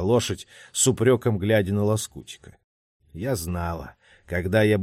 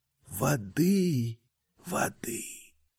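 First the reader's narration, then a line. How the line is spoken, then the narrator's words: Whispered by horse lips. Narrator (Russian): прошептали лошадиные губы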